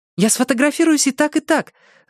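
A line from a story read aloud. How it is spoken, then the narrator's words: Ardent exclamation. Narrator (Russian): с жаром воскликнула Кэндалл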